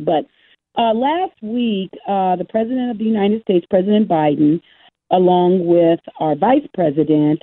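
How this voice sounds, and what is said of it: Hoarse, worn-out voice. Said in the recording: “my voice is gone from just talking to so many people”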